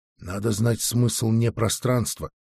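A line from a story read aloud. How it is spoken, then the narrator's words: Quiet. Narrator (Russian): тихо сказала стража Вик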